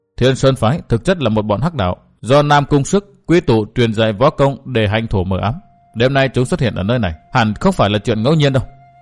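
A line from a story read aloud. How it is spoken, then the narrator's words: Muttering. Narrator (Vietnamese): Chàng lẩm bẩm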